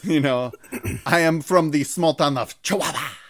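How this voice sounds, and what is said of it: Midwestern accent breaking into Hispanic. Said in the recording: “I tried to sound like a Hispanic weather person who, when they say their hometown, that's the only time they break out of the Midwestern accent.”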